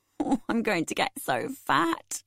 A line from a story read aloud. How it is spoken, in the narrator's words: I said laughingly